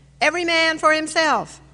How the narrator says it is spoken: The Congregationalist shouted

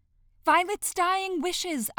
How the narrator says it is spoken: press urgently

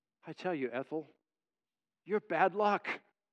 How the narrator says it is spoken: the man sighs and said

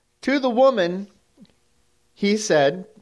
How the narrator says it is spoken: God said

